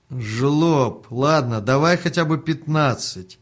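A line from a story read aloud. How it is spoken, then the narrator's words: Woman shouting after. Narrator (Russian): прокричала ему вслед женщина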